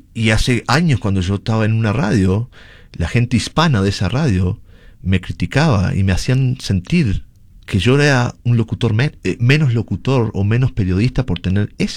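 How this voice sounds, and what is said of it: Uruguayan Spanish accent. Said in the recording (Spanish): “mi acento en español. Por ser tener un acento sudamericano ... yo soy de Uruguay, pero es un acento muy similar al argentino también”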